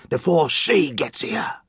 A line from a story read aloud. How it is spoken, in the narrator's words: the man hissed